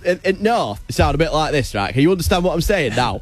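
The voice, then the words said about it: Put-on northern English accent. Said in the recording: “Give us the north of England accent”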